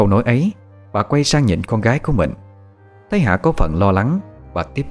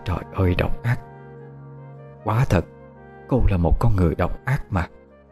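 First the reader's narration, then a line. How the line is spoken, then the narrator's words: Pensive, rambling mutter. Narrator (Vietnamese): trầm tư, lẩm bẩm một câu không đầu không đuôi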